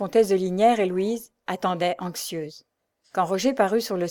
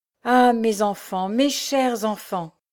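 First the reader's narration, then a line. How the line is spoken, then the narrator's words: Exclaim. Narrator (French): s'écria-t-elle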